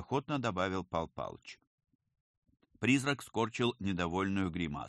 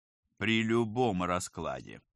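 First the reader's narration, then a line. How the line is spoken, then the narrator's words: Grumble. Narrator (Russian): пробурчал оперативник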